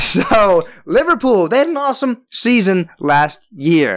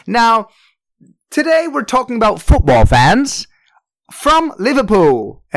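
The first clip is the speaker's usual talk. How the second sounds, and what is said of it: Poor put-on Liverpool accent. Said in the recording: “I'm sorry to everyone for my terrible accent.”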